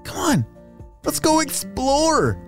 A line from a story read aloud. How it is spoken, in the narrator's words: Aiden exclaimed